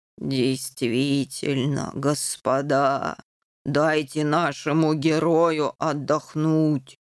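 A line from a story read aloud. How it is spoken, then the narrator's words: Soft low rumble. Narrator (Russian): мягко прогудел сэр Нюф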